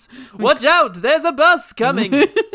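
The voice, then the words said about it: Loud put-on Transylvanian voice. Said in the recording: “loud ... Transylvanian cackle ... doing the Transylvanian voice”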